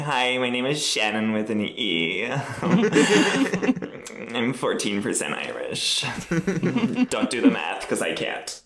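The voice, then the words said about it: Put-on American Valley Girl accent. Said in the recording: “your American accent ... Talk a little bit as an American ... I go into like a full Valley Girl”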